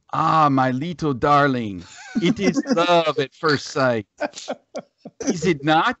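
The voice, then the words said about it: Cartoon character with French accent. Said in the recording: “Can we get a little more accent in there, please? ... A little more French vibe going on. ... I'm going to go with Pepe Le Pew.”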